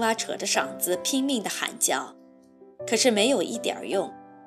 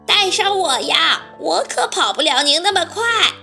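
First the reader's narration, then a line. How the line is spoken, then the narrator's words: Loud call. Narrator (Chinese): 青蛙大声叫道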